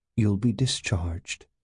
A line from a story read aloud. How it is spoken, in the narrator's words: she said, facing him calmly